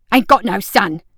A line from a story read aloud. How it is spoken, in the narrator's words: the man spat